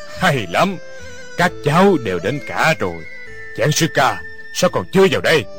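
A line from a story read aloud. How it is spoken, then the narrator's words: Loud laughing speech. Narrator (Vietnamese): Lão ăn mày ha ha cười lớn nói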